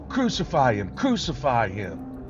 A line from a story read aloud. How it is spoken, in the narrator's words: they cried